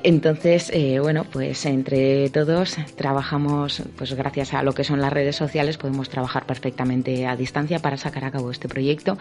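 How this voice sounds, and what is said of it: Spanish speaker with Bilbao accent. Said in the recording (Spanish): “yo bueno soy de Bilbao, yo creo que se habrá notado un poco por el acento”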